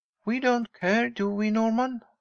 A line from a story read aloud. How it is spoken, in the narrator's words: answered Mary cheerfully